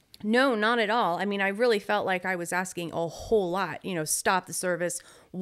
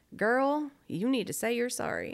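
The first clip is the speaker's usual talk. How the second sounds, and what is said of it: Put-on Southern accent. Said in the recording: “Did he have a Southern accent? ... That's right.”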